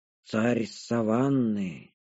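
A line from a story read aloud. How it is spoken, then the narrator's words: Reverent whisper. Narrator (Russian): благоговейно прошептал Ряус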